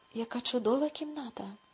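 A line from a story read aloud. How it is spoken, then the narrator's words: Delighted exclamation. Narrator (Ukrainian): захоплено вигукнув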